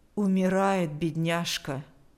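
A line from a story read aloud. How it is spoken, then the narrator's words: Even voice. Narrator (Russian): сказала она ровным голосом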